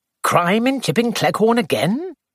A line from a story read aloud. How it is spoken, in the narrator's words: He said cheerfully